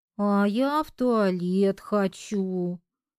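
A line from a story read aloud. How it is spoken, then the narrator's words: Whiny childish drawl. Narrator (Russian): капризно протянула Машенька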